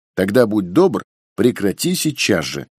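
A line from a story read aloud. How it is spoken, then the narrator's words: Firm, somewhat irritated. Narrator (Russian): решительно и даже несколько раздраженно заявила мать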